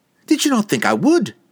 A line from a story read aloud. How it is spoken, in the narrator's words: Catterby snapped at him, suddenly defensive, her tone as sharp as the edges of Drizzt's magical scimitars